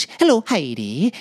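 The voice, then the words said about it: Put-on musical Welsh accent. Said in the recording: “This is my Welsh accent, very musical.”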